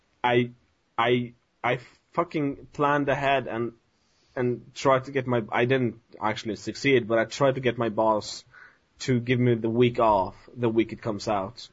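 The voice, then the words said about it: Speaks with a noticeable accent. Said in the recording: “with your accent,... When you say boss, it sounded like balls.”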